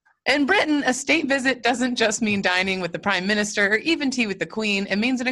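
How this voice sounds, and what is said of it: Usual voice. Nothing is said of it.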